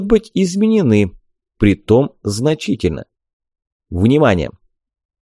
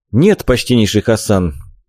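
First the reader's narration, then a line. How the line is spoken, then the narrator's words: Sincere sigh. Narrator (Russian): Абсолютно искренне вздохнул я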